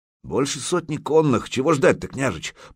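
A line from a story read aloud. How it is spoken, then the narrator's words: Grumbled. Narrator (Russian): проворчал Загреба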